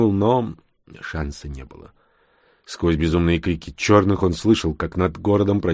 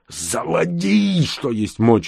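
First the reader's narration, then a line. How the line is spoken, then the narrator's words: Yelling. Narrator (Russian): заорал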